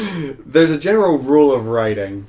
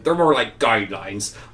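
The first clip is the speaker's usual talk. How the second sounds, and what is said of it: Put-on pirate accent. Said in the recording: “Why do you do that with a pirate accent? ... Pirates of the Caribbean.”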